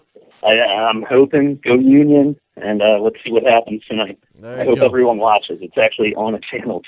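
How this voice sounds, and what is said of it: Philadelphia accent. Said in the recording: “has the Philly accent. ... actually have said accent.”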